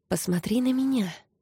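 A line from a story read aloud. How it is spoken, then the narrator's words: Whisper. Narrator (Russian): прошептала Зора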